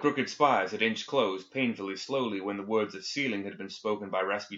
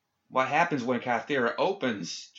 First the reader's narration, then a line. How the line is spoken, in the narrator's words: Justice shouted